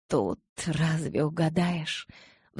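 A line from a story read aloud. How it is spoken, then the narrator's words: Sighing. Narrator (Russian): вздохнула я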